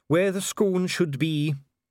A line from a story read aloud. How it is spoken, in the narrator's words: said Dee gloomily